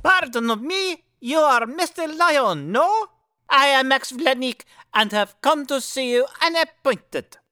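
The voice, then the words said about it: Thick Russian accent. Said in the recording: “thick Russian accent”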